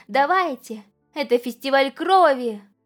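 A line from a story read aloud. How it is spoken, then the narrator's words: Loud crowd shouting. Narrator (Russian): громко поддержали и начали выкрикивать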